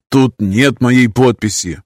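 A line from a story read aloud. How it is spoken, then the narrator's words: Grumbling. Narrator (Russian): пробурчал я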